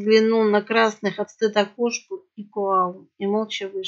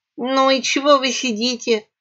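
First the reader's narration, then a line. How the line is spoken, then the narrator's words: Rat snorting. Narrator (Russian): хмыкнула крыса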